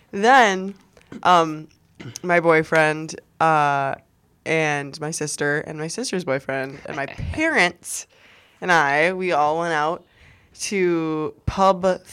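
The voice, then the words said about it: Hoarse, nearly lost voice. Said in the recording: “This is like the last of my voice that I have ... My voice is absolutely gone”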